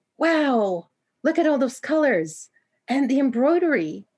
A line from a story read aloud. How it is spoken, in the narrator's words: Poppy exclaimed much louder than Hanya felt was appropriate